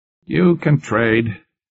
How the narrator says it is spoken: Waring said gruffly

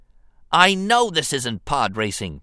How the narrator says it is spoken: Anakin snapped at R2-D2

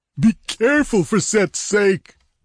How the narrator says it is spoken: begged Olmec

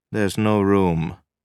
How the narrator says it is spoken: Cusick said flatly

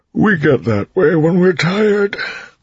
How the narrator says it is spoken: Breeze said with a yawn

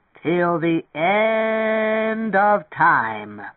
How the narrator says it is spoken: At the piano, rocking back and forth, Tweeny roared out the lyrics

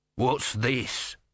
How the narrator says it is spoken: snarled

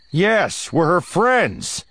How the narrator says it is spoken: shouts Han

